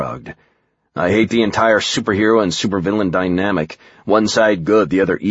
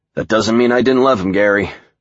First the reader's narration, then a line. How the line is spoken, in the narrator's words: Joel said, sighing